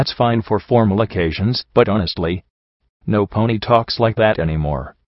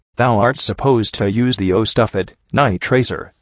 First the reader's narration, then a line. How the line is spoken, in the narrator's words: Lionheart said with a snort